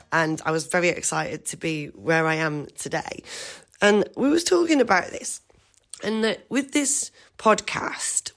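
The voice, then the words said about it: Hoarse congested voice. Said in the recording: “I have to excuse my voice. I've been suffering really badly with a bad cold”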